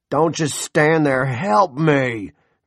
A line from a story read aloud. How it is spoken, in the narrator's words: Big Jim roared at his son